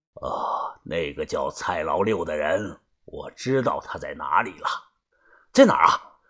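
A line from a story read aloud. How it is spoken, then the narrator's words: Deep low voice. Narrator (Chinese): 把头声音低沉的说道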